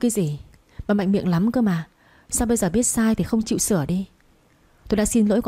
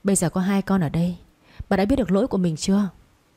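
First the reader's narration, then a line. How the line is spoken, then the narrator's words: Sighing, then speaking. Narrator (Vietnamese): Bố chồng tôi nghe xong thì ông thở dài, rồi quay sang mẹ chồng tôi nói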